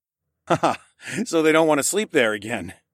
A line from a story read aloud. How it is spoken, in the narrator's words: I chuckled